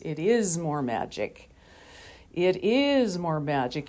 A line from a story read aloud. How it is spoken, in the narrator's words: Aslan, in his huge voice, says